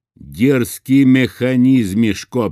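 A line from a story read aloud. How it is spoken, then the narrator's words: Thundering. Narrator (Russian): прогремел путь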